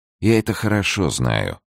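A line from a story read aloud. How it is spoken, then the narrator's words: Sad. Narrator (Russian): печально промолвил Безмо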